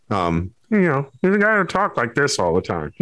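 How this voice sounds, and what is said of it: Nasal, throaty high-pitched character voice. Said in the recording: “my impression of Pendleton Ward ... that sort of pitch in the voice where it's in the back of the throat and, you know, up in the nose”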